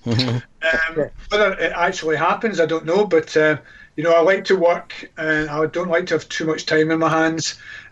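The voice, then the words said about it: Scottish accent. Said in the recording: “Notice how I said a nice Scottish accent there, embryonic.”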